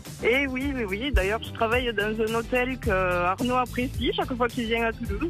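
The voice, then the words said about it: Toulouse southern French accent. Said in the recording (French): “Ce petit accent de toulousain qu'on aime fort.”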